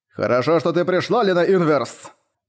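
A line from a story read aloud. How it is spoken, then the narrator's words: Booming voice. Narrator (Russian): прогудел голос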